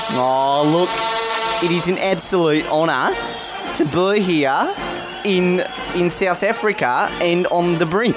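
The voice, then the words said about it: Put-on South African accent, lower voice. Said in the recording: “You seem to have picked up a bit of South African accent... managed my voice box to just go a little bit low”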